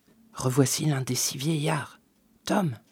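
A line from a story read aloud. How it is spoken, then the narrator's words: Murmur. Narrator (French): murmura Mr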